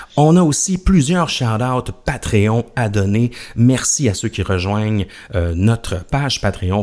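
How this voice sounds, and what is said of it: Québécois French accent. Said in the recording (French): “l'accent québécois ... notre accent”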